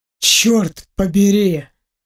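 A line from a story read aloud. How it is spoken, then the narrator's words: Breathed out. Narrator (Russian): выдохнул Ваня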